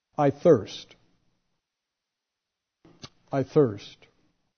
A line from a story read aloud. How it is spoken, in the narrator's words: Jesus cries from the cross